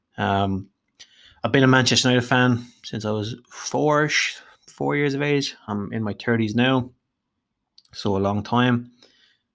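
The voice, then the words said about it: Irish Dublin accent. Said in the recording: “if you can't tell from my voice, I'm Irish, hailing from Dublin in Ireland”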